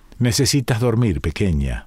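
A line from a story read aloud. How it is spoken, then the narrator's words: Plain. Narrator (Spanish): me dijo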